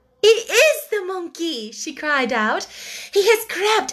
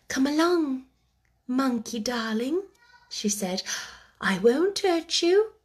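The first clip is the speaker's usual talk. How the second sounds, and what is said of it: Soft coaxing voice. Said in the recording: “speaking in a coaxing voice”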